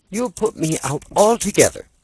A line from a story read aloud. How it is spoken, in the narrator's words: cried Laura angrily